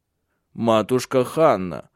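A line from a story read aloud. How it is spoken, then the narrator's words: Stern. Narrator (Russian): строго сказал Тенгель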